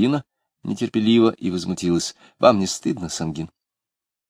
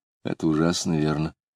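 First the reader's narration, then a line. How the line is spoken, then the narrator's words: Hollow, muffled voice. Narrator (Russian): Лидия сказала глухо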